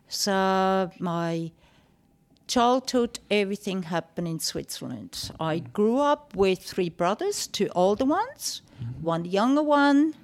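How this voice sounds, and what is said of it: Foreign-accented English. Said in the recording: “what your accent or where your accent derives ... So you think.”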